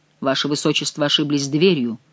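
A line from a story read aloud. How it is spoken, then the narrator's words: Cold. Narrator (Russian): холодно сказал граф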